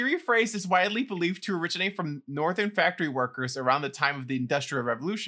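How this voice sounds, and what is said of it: Usual voice. Nothing is said of it.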